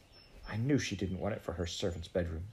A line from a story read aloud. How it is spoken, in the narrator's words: Jane muttered